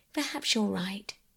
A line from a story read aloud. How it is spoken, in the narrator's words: said Mother, and she sighed